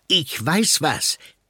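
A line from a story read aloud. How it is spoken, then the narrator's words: Call. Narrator (German): ruft Nick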